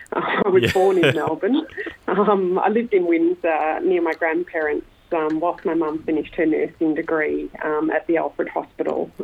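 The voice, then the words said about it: Australian accent. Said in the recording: “You can tell from my accent, I am very Australian.”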